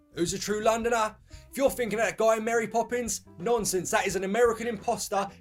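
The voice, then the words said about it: Cockney London accent. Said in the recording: “You asking me about a Cockney accent? ... It's the accent of a true Londoner.”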